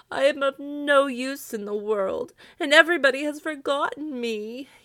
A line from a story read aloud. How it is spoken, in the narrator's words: he moaned